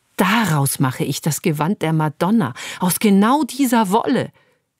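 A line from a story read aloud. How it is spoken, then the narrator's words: Sudden enthusiastic exclamation. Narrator (German): rief sie plötzlich begeistert aus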